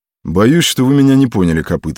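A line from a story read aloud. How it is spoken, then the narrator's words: Plain. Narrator (Russian): сказал генерал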